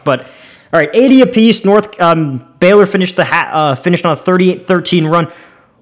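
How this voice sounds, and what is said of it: Strained, worn-out voice. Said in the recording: “I'm losing my voice from talking so much.”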